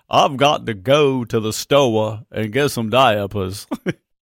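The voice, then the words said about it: Exaggerated Southern accent. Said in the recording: “as we say in the South... I love the Southern accent.”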